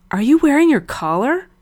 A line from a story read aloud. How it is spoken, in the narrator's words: Frank gasped